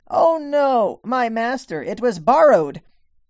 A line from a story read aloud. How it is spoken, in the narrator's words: He called out and said